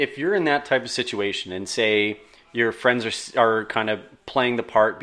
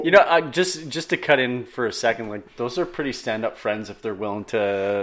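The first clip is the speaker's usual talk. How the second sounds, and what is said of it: Sarcastic tone. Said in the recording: “I say that sarcastically”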